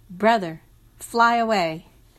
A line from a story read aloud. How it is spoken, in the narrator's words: When the birds saw Hawkman, hypnotized by Night Song's melody, they called out to him